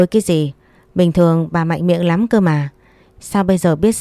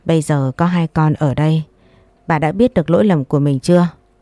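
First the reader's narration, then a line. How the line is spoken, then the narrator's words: Sighing older man. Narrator (Vietnamese): Bố chồng tôi thở dài rồi nói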